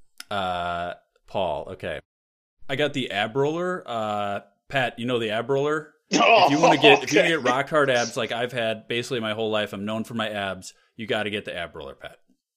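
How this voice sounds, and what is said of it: Imitates another person's voice. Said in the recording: “my impression of Paul and Pat ... That's my Paul”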